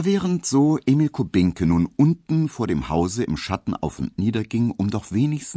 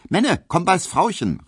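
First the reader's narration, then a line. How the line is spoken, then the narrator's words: Calling out. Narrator (German): rief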